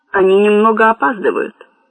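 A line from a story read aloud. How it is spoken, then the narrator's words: Plain. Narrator (Russian): ответил Седой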